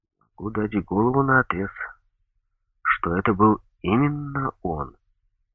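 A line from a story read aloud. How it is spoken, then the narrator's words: Completely calm. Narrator (Russian): совершенно спокойно сказал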